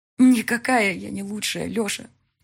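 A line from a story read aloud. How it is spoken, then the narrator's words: Sobbing. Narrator (Russian): всхлипывала Мика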